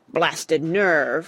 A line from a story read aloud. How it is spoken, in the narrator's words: roared Oswald